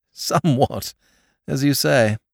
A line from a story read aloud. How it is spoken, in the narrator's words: agreed his lordship with a short laugh